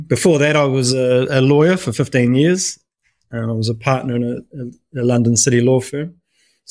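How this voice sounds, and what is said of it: New Zealand accent. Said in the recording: “you can probably tell by my accent, I'm a New Zealander”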